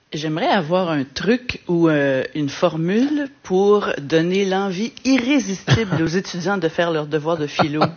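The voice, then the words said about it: Québécois French accent. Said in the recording (French): “Petit accent québécois peut-être? ... Oui, quand même.”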